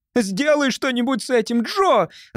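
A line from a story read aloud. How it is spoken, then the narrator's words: Shouting. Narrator (Russian): закричала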